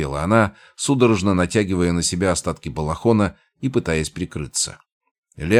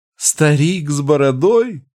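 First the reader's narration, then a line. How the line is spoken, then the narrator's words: Speaking through tearful laughter. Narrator (Russian): проговорила она сквозь смех, вытирая выступившие слезы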